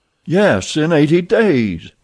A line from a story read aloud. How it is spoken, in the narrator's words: exclaimed Stuart, who in his excitement